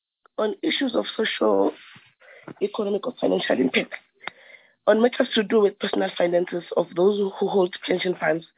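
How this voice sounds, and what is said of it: Rough, sick-sounding voice. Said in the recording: “Please excuse my voice. I've got a bit of flu.”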